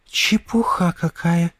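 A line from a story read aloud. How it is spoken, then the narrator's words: Whisper. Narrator (Russian): прошептала она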